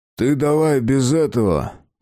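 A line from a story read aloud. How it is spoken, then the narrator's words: Unclear, sullen tone. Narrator (Russian): Маловразумительная фраза, произнесенная хмурым тоном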